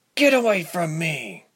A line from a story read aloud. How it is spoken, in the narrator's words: said through gritted teeth